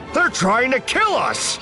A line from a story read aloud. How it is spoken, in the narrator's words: Then more indignantly